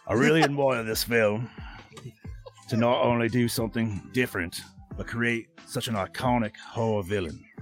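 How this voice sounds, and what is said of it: Put-on Australian accent. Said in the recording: “read this out to you in an Aussie accent”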